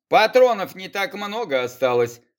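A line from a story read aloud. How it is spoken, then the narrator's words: Big man's smirking grunt. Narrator (Russian): хмыкнул огромный блондин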